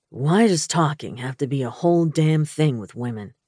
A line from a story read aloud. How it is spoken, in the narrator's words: he grumbled